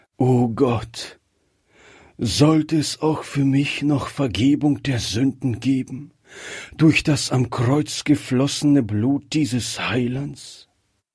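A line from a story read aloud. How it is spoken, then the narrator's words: Heartfelt sigh. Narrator (German): Zum ersten Mal kam dieser Seufzer aus seinem Herzen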